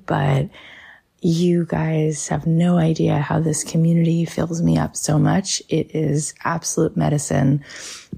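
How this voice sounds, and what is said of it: Scratchy voice from a cold. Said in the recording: “I have a little bit of a cold. I was home today with a fever. So my voice is a little bit scratchy”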